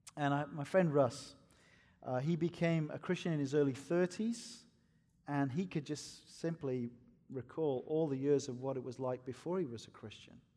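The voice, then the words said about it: Welsh accent. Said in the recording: “I'm a Welshman, by the way. This is not a Scottish accent.”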